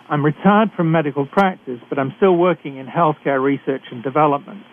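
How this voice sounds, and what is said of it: British accent. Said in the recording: “I'm a physician who is trained in Britain, as I'm sure you can tell from my accent.”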